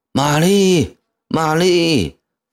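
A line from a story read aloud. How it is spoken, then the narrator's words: Loud call. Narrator (Chinese): 凌厉 高喊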